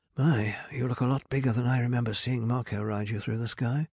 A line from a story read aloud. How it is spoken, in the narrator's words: mumbled